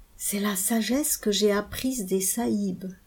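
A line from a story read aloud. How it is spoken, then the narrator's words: Murmured. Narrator (French): murmura-t-il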